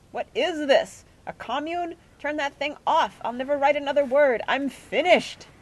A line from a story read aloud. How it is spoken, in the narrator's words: Bagthorpe came out of his room and shouted